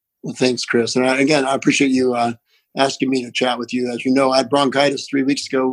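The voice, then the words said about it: Appalachian accent. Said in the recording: “my Appalachian accent”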